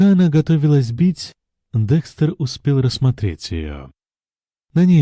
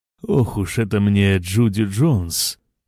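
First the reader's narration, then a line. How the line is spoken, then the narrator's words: Grumbling. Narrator (Russian): проворчал мистер Гедрик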